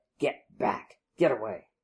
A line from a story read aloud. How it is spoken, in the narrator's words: snarled under his breath